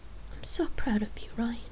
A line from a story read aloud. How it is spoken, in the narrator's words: she murmured